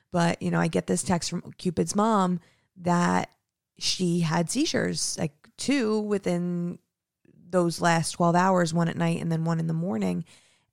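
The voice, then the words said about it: Nasal, emotional voice. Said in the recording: “I'm like super emotional. So if my voice is nasally, I apologize.”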